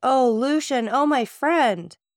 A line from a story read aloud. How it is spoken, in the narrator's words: the lady exclaimed